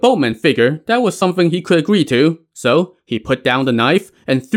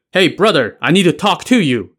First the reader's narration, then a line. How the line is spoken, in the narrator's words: he shouted to the skinny guy